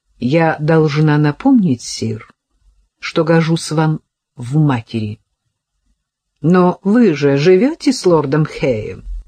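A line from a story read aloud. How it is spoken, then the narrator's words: Surprised but calm reply. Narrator (Russian): Джанет, безусловно, удивилась, но совершенно спокойно ответила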